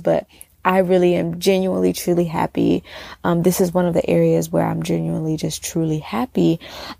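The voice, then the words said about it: Smiling, happy-sounding voice. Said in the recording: “I'm smiling as I share this with you guys. I don't know if you can tell by my voice,”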